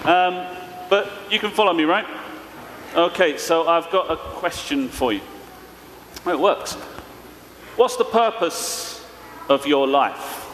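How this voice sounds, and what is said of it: East London accent. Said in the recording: “I'm from East London, so we're speaking in a kind of funny way.”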